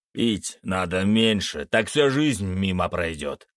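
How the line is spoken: Snapping retort. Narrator (Russian): огрызнулся Череп

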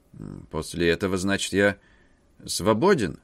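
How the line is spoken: Uncertain. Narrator (Russian): неуверенно повторил К

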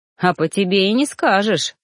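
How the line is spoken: Snorting. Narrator (Russian): хмыкнул Ллойд

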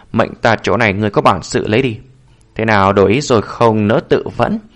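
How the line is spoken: Faint cold smile. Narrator (Vietnamese): Lý Thất Dạ nở nụ cười nhạt

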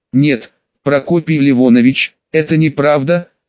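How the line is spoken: Calm. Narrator (Russian): спокойно ответил

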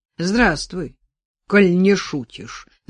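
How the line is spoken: Booming bass. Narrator (Russian): зычным басом ответил редактор Ковалев

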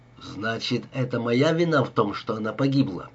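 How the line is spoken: Quiet. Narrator (Russian): произнес Даллас тихо

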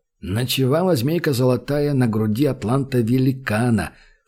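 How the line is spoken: Recited in low voice. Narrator (Russian): вполголоса продекламировал Римон

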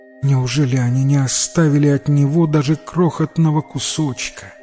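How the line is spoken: Sad. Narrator (Russian): печально сказала она

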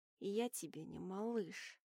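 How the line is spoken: Growl. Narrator (Russian): прорычал Уолтер

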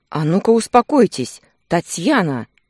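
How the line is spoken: Stern. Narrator (Russian): строго сказал врач

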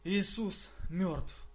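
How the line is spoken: After deep sigh. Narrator (Russian): Глубоко вздохнув, я произнес

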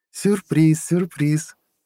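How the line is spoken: Laughing. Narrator (Russian): рассмеялась Анна

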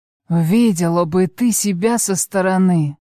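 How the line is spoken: Hoarse whisper in ear. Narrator (Russian): хрипло шепчет на ухо

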